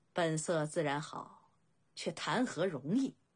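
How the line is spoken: Sighing. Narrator (Chinese): 侯莹喟然一叹

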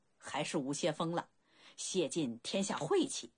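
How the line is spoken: Hearty laughter. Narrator (Chinese): 鲁仲连思忖良久，哈哈大笑

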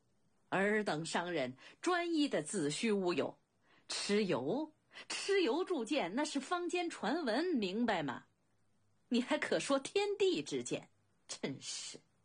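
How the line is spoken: Hearty laughter. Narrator (Chinese): 公子昂不禁哈哈大笑

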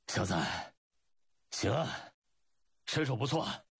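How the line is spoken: Panting heavily. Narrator (Chinese): 赵括嘴里喘粗气

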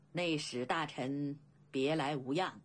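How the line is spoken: Faint smile. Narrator (Chinese): 甘龙淡淡笑道

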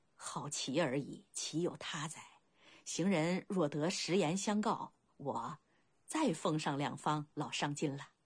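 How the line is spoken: Low voice. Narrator (Chinese): 话了低声道

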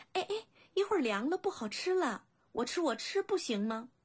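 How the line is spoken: Plain. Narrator (Chinese): 说着

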